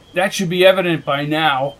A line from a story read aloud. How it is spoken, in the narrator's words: growled McKenna